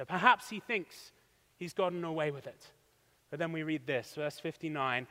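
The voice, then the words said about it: British accent. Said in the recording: “my accent and my quirky Britishisms give me away”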